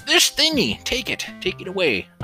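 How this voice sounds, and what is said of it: Old man character voice. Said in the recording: “doing this old man voice ... the old rust bucket voice”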